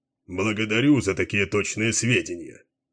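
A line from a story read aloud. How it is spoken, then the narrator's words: Grumbling. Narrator (Russian): проворчал Баллард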